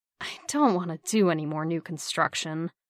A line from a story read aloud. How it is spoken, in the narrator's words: Steve groaned